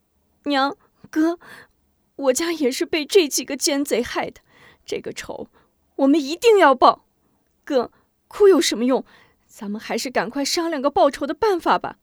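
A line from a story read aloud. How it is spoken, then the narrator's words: Crying, pleading. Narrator (Chinese): 韩晶哭着 劝道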